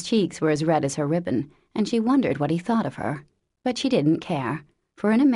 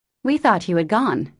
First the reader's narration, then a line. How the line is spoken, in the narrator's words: said Joe hastily